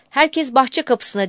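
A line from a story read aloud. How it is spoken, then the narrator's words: Hotel manager shouting. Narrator (Turkish): diye bağırdı otel müdürü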